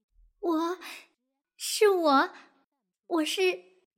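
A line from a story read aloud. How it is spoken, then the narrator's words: Slightly trembling voice. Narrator (Chinese): 没有尾巴的猫声音有点发颤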